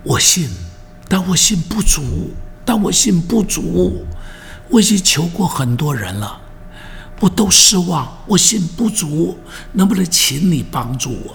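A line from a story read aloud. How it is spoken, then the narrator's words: Old man weeping. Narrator (Chinese): 老泪纵横的跟耶稣哭着说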